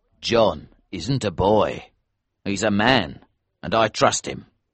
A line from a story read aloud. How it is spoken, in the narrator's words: said Elsevier